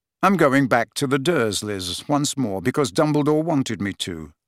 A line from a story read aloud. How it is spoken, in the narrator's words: said Harry